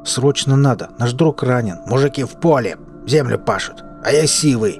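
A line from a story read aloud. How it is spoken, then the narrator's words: Sharp interruption. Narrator (Russian): Резко оборвал незнакомец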